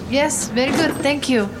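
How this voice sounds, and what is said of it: Put-on Russian-ish accent. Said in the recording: “what kind of accent is she using? ... Kind of Russian.”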